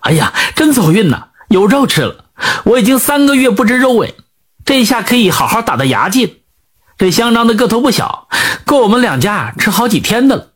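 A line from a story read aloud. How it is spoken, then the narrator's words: Overjoyed loud shout. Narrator (Chinese): 毛三娘 大喜，忍不住高声喊起来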